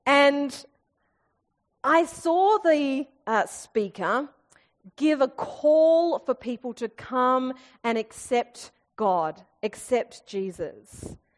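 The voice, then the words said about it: Private girls' school accent. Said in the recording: “I went to MLC in Kew, can you tell because of my accent?”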